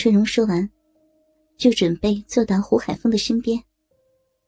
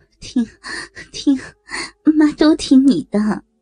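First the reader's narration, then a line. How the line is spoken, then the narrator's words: Smiling, ingratiating. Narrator (Chinese): 胡海峰 对丈母娘沈春荣笑道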